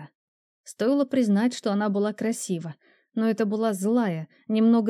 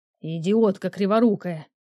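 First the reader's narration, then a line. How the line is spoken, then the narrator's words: Growling voice. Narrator (Russian): В голосе явно слышалось рычание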